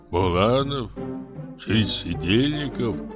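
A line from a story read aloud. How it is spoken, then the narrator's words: Muttering. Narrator (Russian): бормотал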